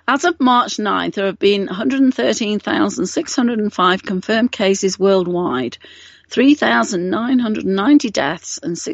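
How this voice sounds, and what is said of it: Slightly rough, strained voice. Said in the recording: “my voice is acting up a little bit today ... I just have a tickle in my throat”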